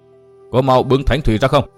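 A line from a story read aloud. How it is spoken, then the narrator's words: Sharp barked command. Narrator (Vietnamese): Chu Khuyết quay lại quát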